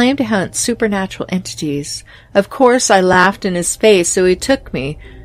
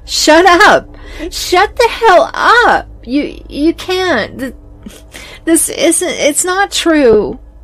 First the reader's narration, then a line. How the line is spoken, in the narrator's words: she screamed as she broke down